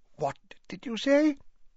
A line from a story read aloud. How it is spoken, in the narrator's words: said hoarsely